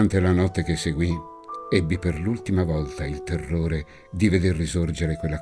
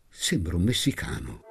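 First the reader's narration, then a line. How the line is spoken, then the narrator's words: Murmured. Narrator (Italian): mormorò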